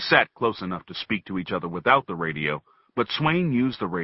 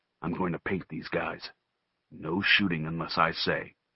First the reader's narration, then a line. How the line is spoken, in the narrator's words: he murmured into the boom mic